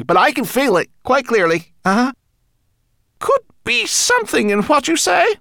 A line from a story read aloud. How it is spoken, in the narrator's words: cried Twigleg